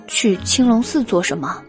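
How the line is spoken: Sighing. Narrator (Chinese): 韦燕叹了一口气

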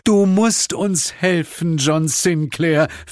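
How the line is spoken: Pleading. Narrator (German): flehte

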